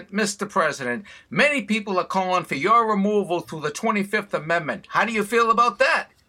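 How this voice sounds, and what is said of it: Boston accent. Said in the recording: “with the Boston accent”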